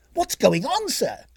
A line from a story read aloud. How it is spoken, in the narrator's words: called out Mrs